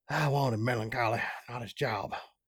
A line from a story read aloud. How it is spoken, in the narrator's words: he said under his breath